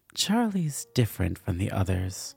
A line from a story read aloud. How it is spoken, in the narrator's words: Cordiva purred some more